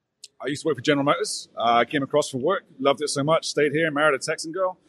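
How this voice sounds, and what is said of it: English accent from Bristol. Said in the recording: “originally from Bristol in England... I caught it from the accent”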